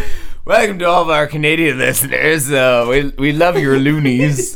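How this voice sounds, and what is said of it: Usual voice. Nothing is said of it.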